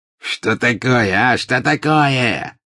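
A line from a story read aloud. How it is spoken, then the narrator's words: Suddenly angry shout. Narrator (Russian): закричал обозлившийся вдруг пожиратель смерти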